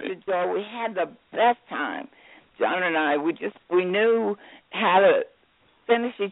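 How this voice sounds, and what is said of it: Scratchy, hoarse voice. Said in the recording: “your voice isn't there, huh? ... Well, think of it as a scratchy sexy. ... you do have a sexy voice”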